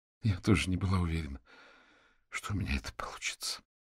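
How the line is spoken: Barely audible reply. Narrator (Russian): еле слышно отозвалась она

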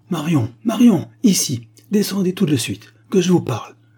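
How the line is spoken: Shouting. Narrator (French): cria mademoiselle Silence

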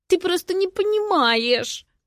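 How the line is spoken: Glum whining. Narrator (Russian): уныло хныкает Лера

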